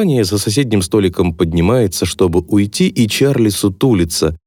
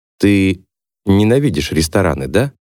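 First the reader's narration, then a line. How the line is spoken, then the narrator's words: Soft question. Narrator (Russian): мягко спрашивает Дев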